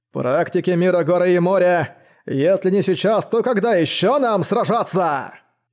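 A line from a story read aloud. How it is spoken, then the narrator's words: Sudden booming voice. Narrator (Russian): прогремел голос Шуй Дун Лю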